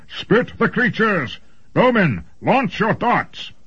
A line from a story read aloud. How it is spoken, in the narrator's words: Lord Faid bellowed